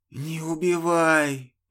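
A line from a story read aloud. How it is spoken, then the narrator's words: Hissed. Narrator (Russian): прошипел тот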